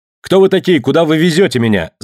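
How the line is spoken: Shouted. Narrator (Russian): закричал Пандион

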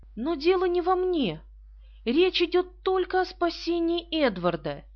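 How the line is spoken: Exclaimed. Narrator (Russian): Она воскликнула

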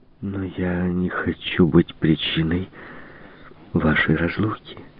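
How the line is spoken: Desperate moan. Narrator (Russian): в отчаянии простонала Марианна

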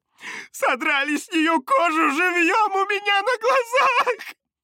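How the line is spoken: Sobbing. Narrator (Russian): всхлипывала она

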